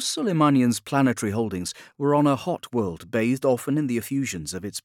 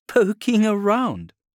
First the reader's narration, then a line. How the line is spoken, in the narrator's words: laughed